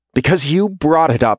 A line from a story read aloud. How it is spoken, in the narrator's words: Sherry snaps